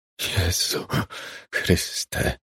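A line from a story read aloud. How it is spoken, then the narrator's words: Whispered. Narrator (Polish): szepnął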